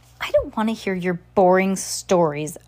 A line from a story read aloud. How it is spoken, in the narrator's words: Olaf snarled